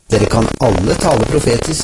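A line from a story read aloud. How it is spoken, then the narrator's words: Plain. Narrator (Norwegian): sier Paulus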